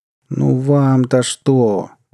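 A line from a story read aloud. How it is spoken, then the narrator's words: Moaning. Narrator (Russian): простонал гость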